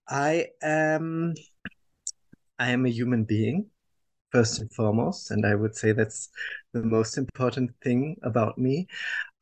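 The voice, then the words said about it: German accent. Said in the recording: “I was born and raised in Germany, as people will understand from my accent.”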